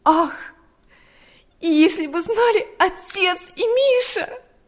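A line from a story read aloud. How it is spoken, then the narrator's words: Young girl exclaiming. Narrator (Russian): воскликнула девочка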